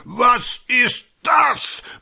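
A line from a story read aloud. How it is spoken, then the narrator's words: Thundering. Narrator (German): donnernd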